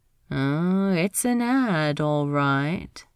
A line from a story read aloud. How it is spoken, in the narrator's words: Jim said slowly